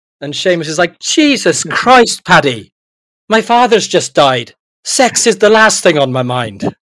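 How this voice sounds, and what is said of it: Bad put-on Irish accent. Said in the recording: “almost as bad as your Irish accent ... Yeah, it's terrible, isn't it?”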